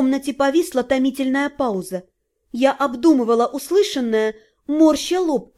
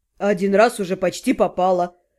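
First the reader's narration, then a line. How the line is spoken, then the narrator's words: Grumbling. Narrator (Russian): проворчал Вашарий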